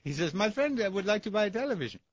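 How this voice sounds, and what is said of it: Put-on Indian accent. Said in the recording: “I just love doing Indian accent because it's the only accent I can do.”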